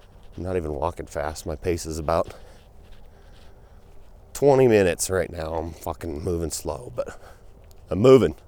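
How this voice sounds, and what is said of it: Out of breath while talking. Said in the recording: “I'm getting out of breath already.”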